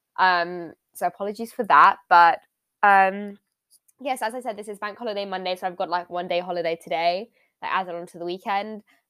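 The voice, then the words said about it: Slightly strained, sore-throat voice. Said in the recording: “my voice sounds a bit weird, or because I have a bit of a sore throat”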